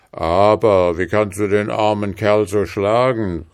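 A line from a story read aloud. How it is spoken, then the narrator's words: Calling out. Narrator (German): rief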